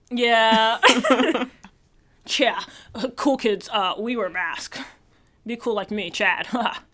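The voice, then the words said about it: Dude-bro Chad character voice. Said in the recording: “if I say it like a Chad, like I'm like, dude ... I really believe your voice, your impression”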